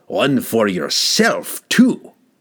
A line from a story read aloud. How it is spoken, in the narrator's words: The enraged dwarf growled